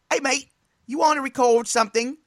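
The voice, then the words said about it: Put-on Australian accent. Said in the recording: “I don't know if that's a good Australian accent there.”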